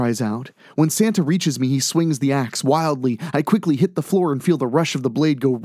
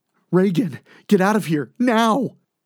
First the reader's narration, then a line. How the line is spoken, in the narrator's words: Delphine cries